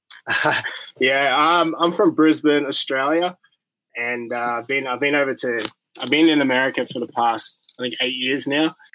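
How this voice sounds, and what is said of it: Australian accent. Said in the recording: “I know all the listeners could detect an accent there.”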